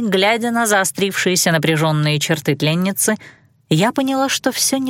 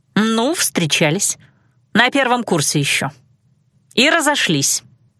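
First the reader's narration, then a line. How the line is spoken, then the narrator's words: Curt, clipped. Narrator (Russian): отрывисто бросила она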